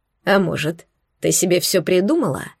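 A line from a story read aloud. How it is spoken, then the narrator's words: Calm. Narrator (Russian): спросил он спокойно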